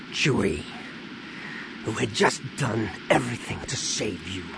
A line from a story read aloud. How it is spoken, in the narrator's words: Han said with a growl